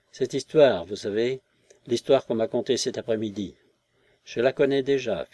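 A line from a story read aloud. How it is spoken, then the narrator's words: Sad. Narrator (French): fit-elle, tristement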